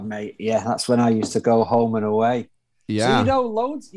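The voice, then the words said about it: Northern English accent. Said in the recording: “I'm getting kind of a northern accent out of you ... I'm from Manchester, up in the north of uh, in the north of the UK, north of England.”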